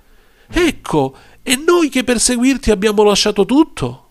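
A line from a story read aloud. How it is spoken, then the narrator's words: Proud exclamation. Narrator (Italian): Pietro allora esclamò orgoglioso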